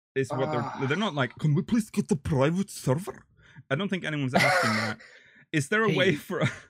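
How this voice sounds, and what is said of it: Put-on Korean accent. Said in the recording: “that was a Korean accent.”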